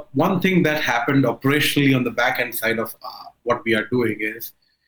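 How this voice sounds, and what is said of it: Heavy accent. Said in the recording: “my accent is heavy”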